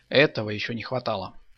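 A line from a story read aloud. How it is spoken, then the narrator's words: Plain. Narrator (Russian): сказал Михаил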